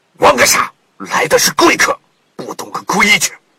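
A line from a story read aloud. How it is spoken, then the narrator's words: Old fisherman roaring. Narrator (Chinese): 渔翁吼道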